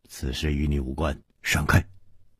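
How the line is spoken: Stern, harsh. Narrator (Chinese): 蒙面客厉声说

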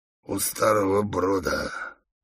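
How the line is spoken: Hoarse reply. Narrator (Russian): хрипло отвечал Бешеный Бык

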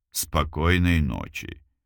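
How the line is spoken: Soft, gentle. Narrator (Russian): мягко сказал Илюшин

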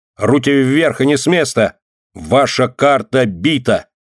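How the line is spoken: Loud slow reading. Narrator (Russian): громко и медленно прочитал Ленька

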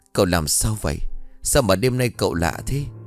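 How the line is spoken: Terrified trembling stammer. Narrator (Vietnamese): Tám run rẩy như cầy sấy, lắp bắp

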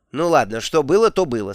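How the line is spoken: Plain. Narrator (Russian): сказала матушка

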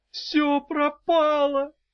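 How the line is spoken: Moan. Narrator (Russian): простонала

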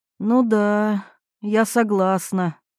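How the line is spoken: Sighing. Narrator (Russian): Ирина вздохнула

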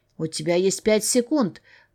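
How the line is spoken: Growling. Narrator (Russian): прорычал чертовски знакомый голос

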